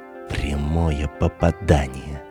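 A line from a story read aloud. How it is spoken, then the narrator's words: Quick whisper. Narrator (Russian): Мишка тотчас прошептал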